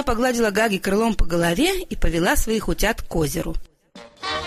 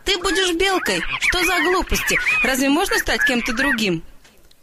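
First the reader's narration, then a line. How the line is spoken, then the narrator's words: Laughing mother. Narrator (Russian): Мама тоже засмеялась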